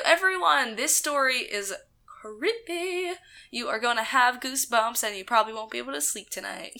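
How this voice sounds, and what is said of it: Hoarse, nearly lost voice. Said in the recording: “my voice is gone... screaming a lot”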